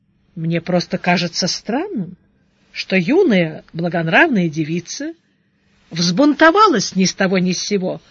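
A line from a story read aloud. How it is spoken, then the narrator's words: Calm male reply. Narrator (Russian): спокойно ответил монах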